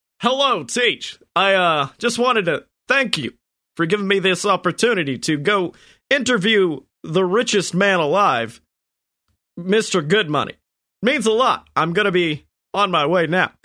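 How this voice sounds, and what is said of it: Obama voice impression. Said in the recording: “Really just wanted to do the Obama voice, didn't you?”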